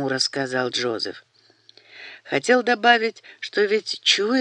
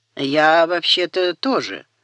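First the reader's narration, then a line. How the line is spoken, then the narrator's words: Wry snort. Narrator (Russian): хмыкнул Бенджамин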